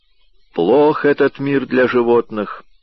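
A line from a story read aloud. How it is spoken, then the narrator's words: Weary gloomy remark. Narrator (Russian): в который уже раз мрачно заметил Раф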